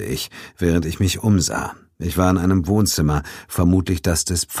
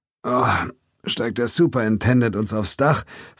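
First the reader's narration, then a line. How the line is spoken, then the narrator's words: Groaning question. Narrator (German): fragte ich stöhnend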